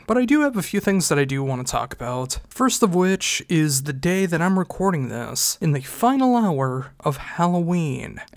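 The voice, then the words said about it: Congested, stuffy-nosed voice. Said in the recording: “My nose is still pretty stuffed up. My throat, actually, not as bad as it normally is ... allergies ... if my voice is annoying, I do apologize”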